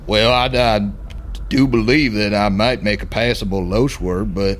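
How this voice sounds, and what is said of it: Put-on Southern plantation-owner accent. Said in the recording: “how's your accent? ... that was pretty good, mate ... We had some plantation owners ... that's where the accent comes from”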